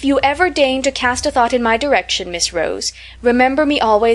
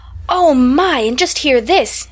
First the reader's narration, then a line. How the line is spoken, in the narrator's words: exclaimed Annie Silsby